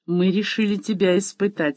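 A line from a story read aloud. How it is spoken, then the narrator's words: Plain. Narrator (Russian): сказал он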